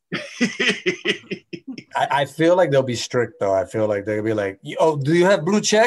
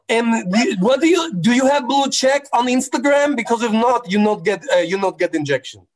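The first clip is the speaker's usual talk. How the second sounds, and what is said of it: Put-on Russian accent. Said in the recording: “I don't know what an Indonesian accent is, so I'm just basically doing like a Russian accent... I'm gonna do a Russian accent.”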